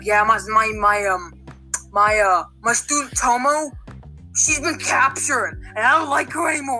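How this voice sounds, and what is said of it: Put-on character voice. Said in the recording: “I'm doing a lot of voices”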